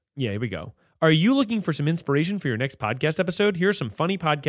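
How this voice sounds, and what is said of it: Usual voice. Nothing is said of it.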